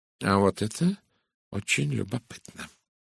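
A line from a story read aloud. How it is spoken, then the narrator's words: Thoughtful murmur. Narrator (Russian): задумчиво пробормотал Эркюль Пуаро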